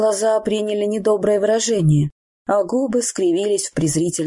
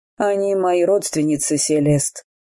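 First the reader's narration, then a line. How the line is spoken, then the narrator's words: Bored tone. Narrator (Russian): сказал скучающим тоном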